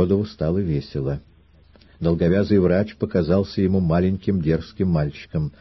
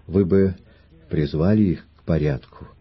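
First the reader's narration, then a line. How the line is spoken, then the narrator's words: Gentle, as to children. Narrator (Russian): Триродов ласково, как говорят с детьми, сказал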